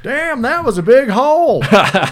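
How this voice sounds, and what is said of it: Southern accent. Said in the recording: “Randy had a real Southern accent.”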